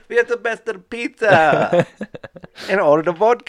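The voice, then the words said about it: Put-on Italian accent, Mario-style. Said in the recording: “I always go Italian. It's the only accent I could do... Mario”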